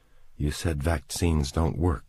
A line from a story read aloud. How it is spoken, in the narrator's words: she said, her voice shaking a little